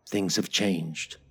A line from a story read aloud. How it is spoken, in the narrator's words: I said quietly